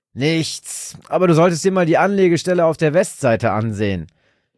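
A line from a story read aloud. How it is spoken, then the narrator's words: Shouted. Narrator (German): schrie ihm sein Kollege Roy zu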